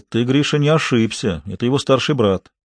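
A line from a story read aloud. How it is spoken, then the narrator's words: Deep bass voice. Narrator (Russian): Василий Петрович басистым голосом ответил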